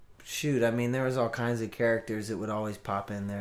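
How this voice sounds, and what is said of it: Usual voice. Nothing is said of it.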